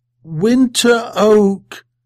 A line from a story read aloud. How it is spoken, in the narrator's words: The children began to laugh